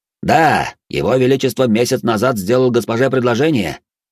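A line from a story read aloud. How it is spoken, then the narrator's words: Loud public announcement. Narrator (Russian): Громко во всеуслышание произнес Канц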